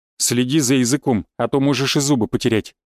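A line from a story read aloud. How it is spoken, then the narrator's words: Steely declaration. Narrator (Russian): стальным тоном заявил я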